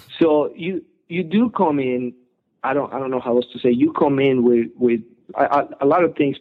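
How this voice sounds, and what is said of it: Foreign accent, non-native English speaker. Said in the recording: “being from overseas ... my English, my accent, you know, you can tell right away, hey, he's not from around here”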